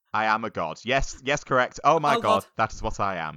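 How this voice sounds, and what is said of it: Thick northern English character voice. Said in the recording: “speak in the slowpoke's accent, which is a thick northern ... another character voice”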